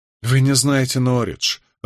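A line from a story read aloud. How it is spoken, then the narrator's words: Irritated. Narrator (Russian): раздраженно бросил Тоби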